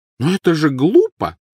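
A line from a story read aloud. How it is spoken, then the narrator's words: Exclamation. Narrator (Russian): воскликнула миссис Уизли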